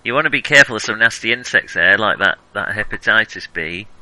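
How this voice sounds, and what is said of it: Put-on northern English accent. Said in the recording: “in a northern accent”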